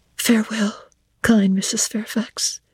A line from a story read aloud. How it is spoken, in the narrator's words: I whispered